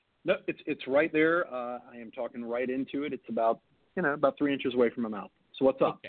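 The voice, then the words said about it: Slightly hoarse voice. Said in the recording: “I might be a little hoarse today”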